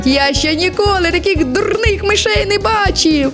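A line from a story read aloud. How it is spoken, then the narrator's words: Laughing. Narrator (Ukrainian): Розсміялося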